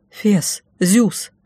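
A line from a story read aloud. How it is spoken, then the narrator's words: Excited whisper. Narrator (Russian): шепнула, озаренная сумасшедшей идеей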